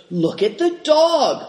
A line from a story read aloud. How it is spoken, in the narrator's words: cried some